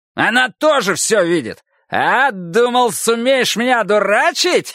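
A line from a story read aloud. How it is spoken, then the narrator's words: Strained, shrill laughter. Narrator (Russian): Фариш натужно, визгливо захохотал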